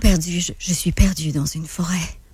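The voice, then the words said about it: Deeper, breathier dubbing voice. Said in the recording (French): “Dakota, c'est pas mal la même voix, mais Dakota, je te dirais qu'elle est plus deep, il y a plus d'air dedans.”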